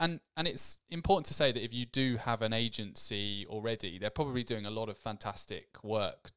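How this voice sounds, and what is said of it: Usual voice. Nothing is said of it.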